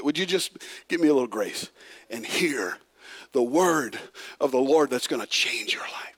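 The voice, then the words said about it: Raspy strained voice. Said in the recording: “my throat's raspy already”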